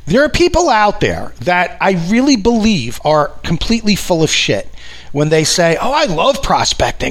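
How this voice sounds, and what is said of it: New York accent. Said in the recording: “I live in New York, in case you haven't picked up from this accent, following me around like a shadow”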